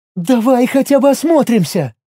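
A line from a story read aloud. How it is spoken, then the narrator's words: Pleading. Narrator (Russian): взмолилась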